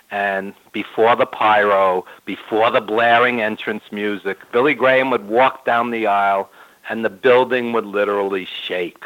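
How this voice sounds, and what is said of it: New York accent. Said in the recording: “I've lived in New York my whole life, as you could tell by my accent.”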